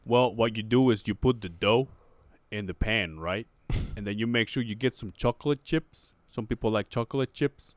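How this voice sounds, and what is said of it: Imitates another person's accent. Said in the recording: “I don't know why I gave him that accent ... Tell me, in his accent”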